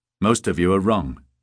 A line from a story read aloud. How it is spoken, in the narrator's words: Halvorsen said